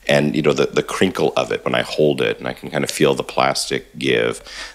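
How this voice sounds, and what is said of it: Slightly scratchy voice. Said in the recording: “My voice is a little scratchy this week.”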